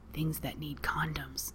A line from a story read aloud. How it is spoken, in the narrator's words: Pete whispered